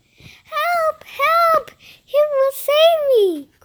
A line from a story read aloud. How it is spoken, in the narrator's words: cried the pretty princess